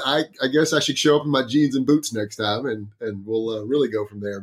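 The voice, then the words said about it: Texan accent. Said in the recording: “I'm from Texas ... I have to work on enunciating my words a little more clearly ... pull my accent out”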